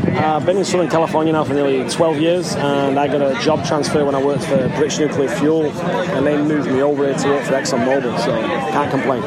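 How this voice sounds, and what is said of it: Manchester English accent. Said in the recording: “I just heard an accent ... which was definitely Manchester”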